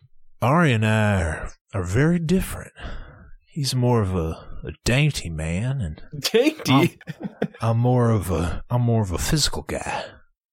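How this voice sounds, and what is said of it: Imitates another person's voice. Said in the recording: “doing a little Ryan impression”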